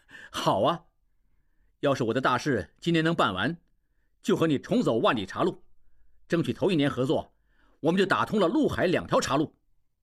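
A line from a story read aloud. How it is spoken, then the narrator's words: Laughing. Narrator (Chinese): 应济笑起来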